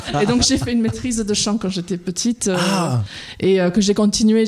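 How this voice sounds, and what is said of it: Slight English accent in French. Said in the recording (French): “je suis à la base anglaise. Vous l'entendez peut-être dans mon petit accent.”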